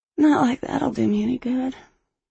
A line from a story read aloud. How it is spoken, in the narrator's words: she sighed